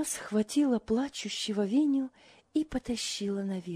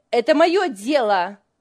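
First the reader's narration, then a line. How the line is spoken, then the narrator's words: Angry retort. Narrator (Russian): сердито бросила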